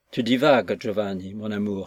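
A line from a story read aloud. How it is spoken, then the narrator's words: Tempting sigh. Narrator (French): soupirait-elle d'une voix tentatrice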